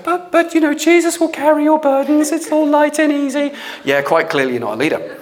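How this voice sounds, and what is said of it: Sarcastic mocking delivery. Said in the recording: “I'm being sarcastic”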